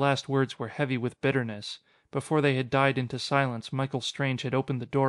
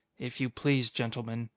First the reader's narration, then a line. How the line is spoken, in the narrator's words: he said quietly